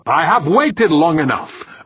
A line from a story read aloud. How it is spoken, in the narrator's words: Urbane snapped